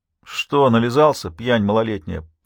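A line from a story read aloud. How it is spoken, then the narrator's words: Deep bass reply. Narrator (Russian): пробасил в ответ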